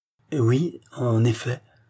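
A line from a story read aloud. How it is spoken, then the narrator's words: Pitiful stammer. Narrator (French): balbutia le pauvre monsieur de Lompré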